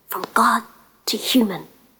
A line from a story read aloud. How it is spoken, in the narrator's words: she whispered